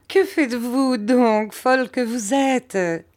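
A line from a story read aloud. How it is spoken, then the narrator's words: Laughing mother. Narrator (French): dit ma mère en riant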